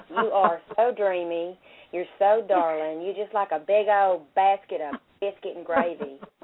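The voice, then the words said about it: Put-on Southern accent. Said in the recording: “in your best Southern accent”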